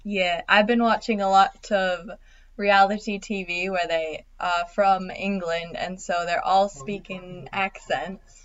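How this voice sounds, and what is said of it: Loose put-on British accent. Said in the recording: “what part of England am I speaking? What accent do I have? ... it's from nowhere ... it's not very full. It's more loose ... trying to adapt their own British accent”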